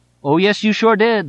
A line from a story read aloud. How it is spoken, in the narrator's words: the father would shout back